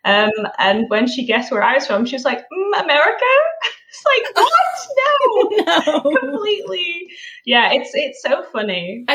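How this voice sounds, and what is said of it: Mixed British-North American accent. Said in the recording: “I always call my accent just like from somewhere over the Atlantic, you know, it's like somewhere in between there. I'm just like a mutt now with my how I sound”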